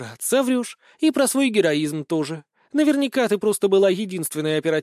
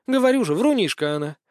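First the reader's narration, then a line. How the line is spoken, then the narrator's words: Snort. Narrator (Russian): хмыкнула Лина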